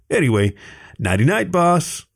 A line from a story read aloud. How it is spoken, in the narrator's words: Alvin said cheerfully